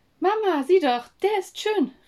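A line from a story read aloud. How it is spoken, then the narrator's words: Called out. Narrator (German): rief Lynn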